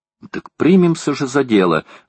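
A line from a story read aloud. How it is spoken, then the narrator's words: Exclamation. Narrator (Russian): воскликнула леди Элен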